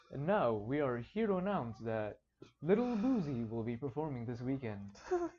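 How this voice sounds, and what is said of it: Old-fashioned eloquent radio announcer voice. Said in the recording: “radio voices ... They speak with great eloquence ... that accent ... that radio voice ... Like that 70s, ... 80s. ... Cadence”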